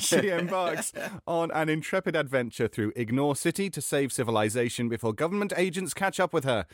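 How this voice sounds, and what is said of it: British accent. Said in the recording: “when you mess up in British accent, it just sounds delightful.”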